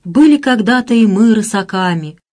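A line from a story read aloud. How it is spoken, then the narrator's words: Sleepy sigh. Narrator (Russian): вздохнул проснувшийся Василий Парамонович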